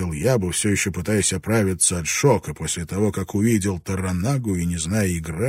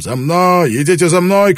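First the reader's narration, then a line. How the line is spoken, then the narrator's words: Shouting. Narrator (Russian): кричал он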